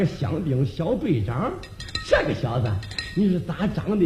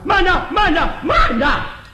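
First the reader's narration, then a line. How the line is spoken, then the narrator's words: Loud shout. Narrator (Chinese): 在后边有人高声喊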